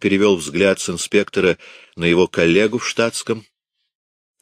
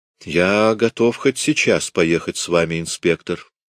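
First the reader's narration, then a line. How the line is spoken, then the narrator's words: Calm. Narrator (Russian): сказал он спокойно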